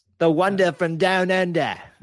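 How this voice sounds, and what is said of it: Bad put-on Australian accent. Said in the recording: “That was a terrible Australian accent. ... That was pretty bad.”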